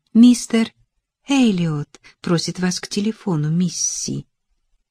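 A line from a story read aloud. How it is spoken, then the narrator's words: Soft birdlike voice. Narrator (Russian): Мэй Лин сказала своим мягким, несколько птичьим голоском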